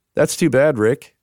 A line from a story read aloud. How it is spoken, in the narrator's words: she said